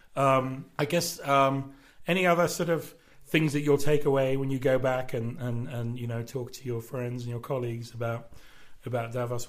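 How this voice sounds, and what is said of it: Strained voice close to giving out. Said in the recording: “my voice is just about to give out”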